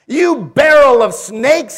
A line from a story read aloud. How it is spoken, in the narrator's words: he exclaimed